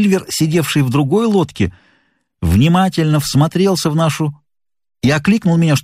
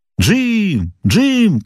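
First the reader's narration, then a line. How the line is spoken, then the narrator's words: Shouting after someone. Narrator (Russian): кричал мне вслед Сильвер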